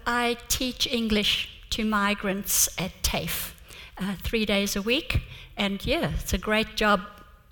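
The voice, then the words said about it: Slight South African accent. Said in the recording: “you talk with a slight accent ... I was obviously born in South Africa, but we came to Adelaide 20 years ago. And, you know, accents, they just stay.”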